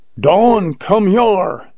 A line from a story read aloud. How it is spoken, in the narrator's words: yelled Jones